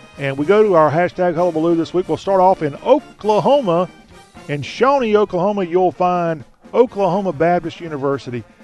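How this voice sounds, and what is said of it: Southern accent. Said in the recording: “we talk with a Southern accent”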